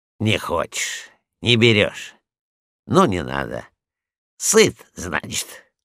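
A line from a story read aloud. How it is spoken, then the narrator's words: Grumbling. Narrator (Russian): проворчал он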